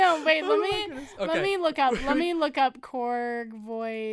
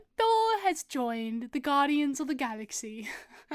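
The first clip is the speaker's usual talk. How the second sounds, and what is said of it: Put-on British accent. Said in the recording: “That's just a British accent now.”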